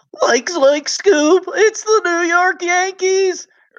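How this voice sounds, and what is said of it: Scooby-Doo impression. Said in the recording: “do Scooby to make up for that.”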